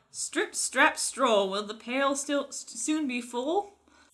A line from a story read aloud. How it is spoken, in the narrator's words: he called out